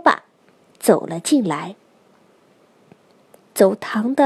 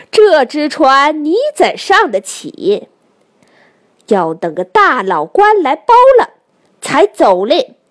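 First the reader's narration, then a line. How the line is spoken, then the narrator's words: Laughing. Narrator (Chinese): 店主人笑道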